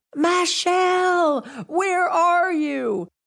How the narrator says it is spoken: her shouts of

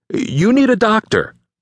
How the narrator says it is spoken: cried out

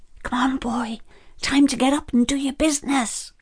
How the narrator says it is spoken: Pete whispers

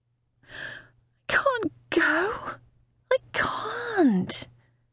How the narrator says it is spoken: moaned softly

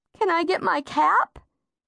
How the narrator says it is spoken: asked tearfully

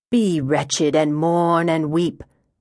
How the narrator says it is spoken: Wyoming intoned

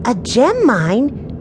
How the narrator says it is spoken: 10-year-old Violet exclaimed

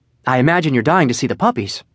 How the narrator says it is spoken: She quickly added

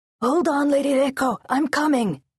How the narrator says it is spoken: Lieutenant Asukai shouted

